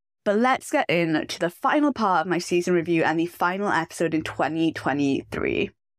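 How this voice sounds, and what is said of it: Slightly rough, off-sounding voice. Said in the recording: “my voice sounds a little bit off today. I've had a horrible cough and cold for the past couple of days ... my voice is sounding just a little bit rough today”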